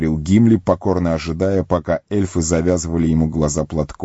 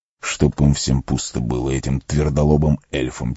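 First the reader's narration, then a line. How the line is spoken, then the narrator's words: Quiet. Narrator (Russian): тихонько произнес Арагорн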